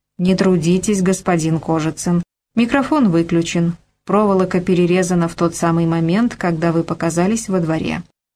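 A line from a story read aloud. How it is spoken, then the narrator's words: Calm. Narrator (Russian): спокойно сказал генерал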